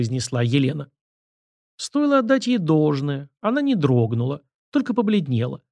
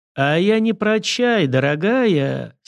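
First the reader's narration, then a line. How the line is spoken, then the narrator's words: Condescending drawl. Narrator (Russian): снисходительно протянула она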